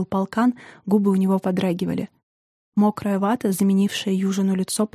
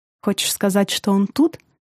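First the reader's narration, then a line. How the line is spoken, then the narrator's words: Pitiful and pleading. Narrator (Russian): В голове Южина вопрос этот звучал насмешливо, но получилось жалко, просяще даже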